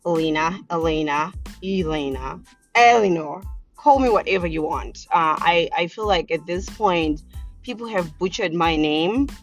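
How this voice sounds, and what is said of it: Zimbabwean accent. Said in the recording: “I'm originally from a small little country in the southern part of Africa called Zimbabwe. So that's where the accent comes from”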